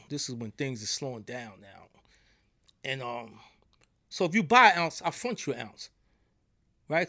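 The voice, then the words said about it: New York accent. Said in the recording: “they hear from my accent. I'm from New York”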